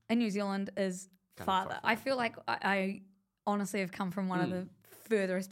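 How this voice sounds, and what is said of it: New Zealand accent, close to Australian. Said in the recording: “it's like a mix between British and Australian ... that felt Australian, like just a little ... maybe closer to Australian than British”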